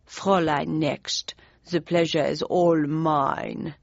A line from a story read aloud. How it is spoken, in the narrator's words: he intoned in a heavy German accent